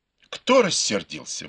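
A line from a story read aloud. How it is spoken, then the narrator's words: Exclaimed. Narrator (Russian): воскликнул Бао Юй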